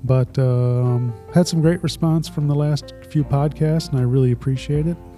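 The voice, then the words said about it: Congested, stuffy voice. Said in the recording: “I'm congested... I'm stuffy. You can probably tell by my voice.”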